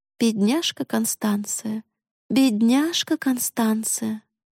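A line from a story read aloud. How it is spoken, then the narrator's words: Sighing mutter. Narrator (Russian): Мама вздохнула, бормоча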